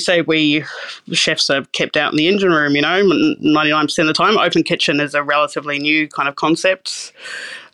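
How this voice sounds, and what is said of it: New Zealand / Australian accent. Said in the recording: “this New Zealand / Australian accent would come out of my mouth”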